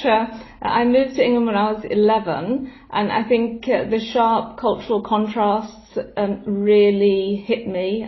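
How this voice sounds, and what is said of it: Very English accent. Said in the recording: “My English accent's very English.”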